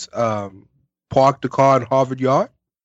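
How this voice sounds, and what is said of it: Attempted Boston accent. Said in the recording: “I don't have a Boston accent, so I'm sorry. ... It's not bad. ... Harvard. You got to get the ah.”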